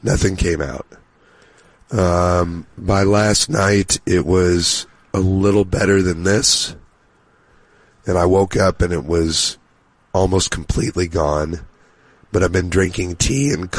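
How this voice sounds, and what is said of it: Deep, froggy hoarse voice. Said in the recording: “Sounds a little different, just a little deeper and froggy. ... you got deep voice.”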